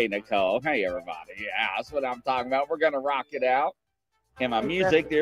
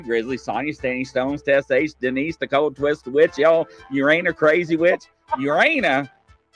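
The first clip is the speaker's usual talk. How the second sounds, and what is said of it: Very fast rattled-off list of names. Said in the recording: “I said that so fast.”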